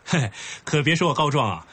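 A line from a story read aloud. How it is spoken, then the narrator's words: Laughing. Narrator (Chinese): 冯潇笑着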